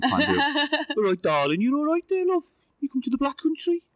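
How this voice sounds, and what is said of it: Put-on Birmingham accent. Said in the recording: “I was going to say Brummie. Do you know like Birmingham accent? ... I can't really do accents”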